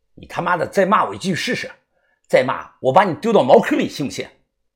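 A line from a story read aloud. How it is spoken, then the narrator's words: Cold, menacing. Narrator (Chinese): 冷声的说道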